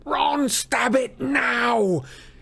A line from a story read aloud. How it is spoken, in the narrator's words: Harry bellowed